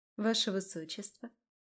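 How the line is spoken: Tender call. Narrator (Russian): нежно позвала Таира

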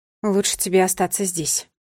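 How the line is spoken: Icy cold voice. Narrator (Russian): ответила она ледяным голосом

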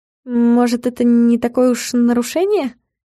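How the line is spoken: Uncertain suggestion. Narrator (Russian): Неуверенно предположила Галка

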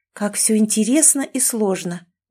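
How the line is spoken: Sigh. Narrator (Russian): вздохнула Кэти

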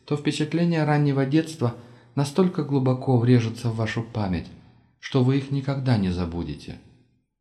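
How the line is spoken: Pensive. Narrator (Russian): задумчиво произнесла Кэрис

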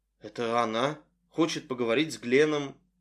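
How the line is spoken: Grim, through gritted teeth. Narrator (Russian): Рэндалл мрачно процедил

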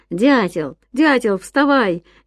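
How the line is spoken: Cheerful shout. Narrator (Russian): весело кричал Ян своему спящему другу

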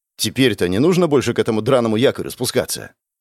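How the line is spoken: Plain question. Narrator (Russian): спросил я

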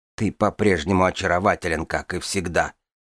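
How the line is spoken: Muttering. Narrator (Russian): пробормотала Дорна

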